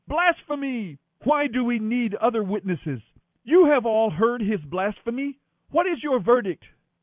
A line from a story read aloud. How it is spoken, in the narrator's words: shouting